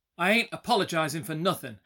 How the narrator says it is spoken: Hrungnir snapped

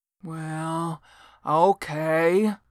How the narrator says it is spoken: grumbled Devon

